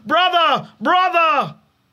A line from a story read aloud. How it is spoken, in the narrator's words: yelled down